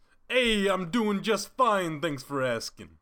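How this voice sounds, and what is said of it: Put-on unmistakable accent. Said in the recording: “I appreciate the accent. ... that unmistakable accent”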